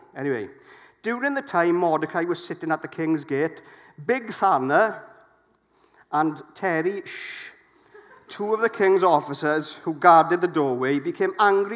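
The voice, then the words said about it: Put-on Welsh Llanelli accent. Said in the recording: “I'm going to read it in my best Llanelli accent”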